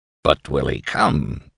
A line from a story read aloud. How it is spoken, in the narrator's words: grunted Dr